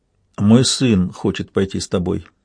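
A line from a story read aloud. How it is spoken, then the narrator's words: Quiet. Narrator (Russian): негромко проронил он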